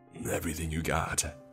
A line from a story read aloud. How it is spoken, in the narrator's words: said in a deep, gruff voice